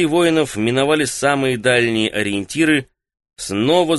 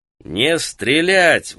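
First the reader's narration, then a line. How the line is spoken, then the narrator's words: Roar over the noise. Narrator (Russian): взревел Мирен, так что его голос перекрыл гул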